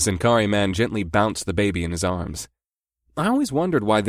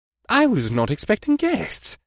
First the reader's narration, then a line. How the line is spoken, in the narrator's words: the general said in a pleasant voice